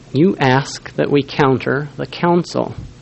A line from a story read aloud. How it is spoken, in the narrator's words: said one